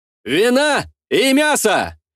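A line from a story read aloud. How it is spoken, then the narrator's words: Dashing, reckless shout. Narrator (Russian): Залихватски прокричал я, стараясь вновь отыгрывать роль расточительного и легкомысленного дурачка Борчука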